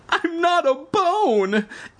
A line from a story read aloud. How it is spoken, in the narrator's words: Evan cried frantically